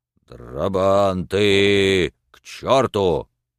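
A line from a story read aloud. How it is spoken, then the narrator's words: Sudden terrifying bass command. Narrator (Russian): Вдруг Кожин скомандовал своим ужасающим басом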